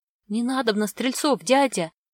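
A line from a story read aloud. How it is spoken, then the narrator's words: Frightened boy mumbling. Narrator (Russian): испуганно забормотал мальчик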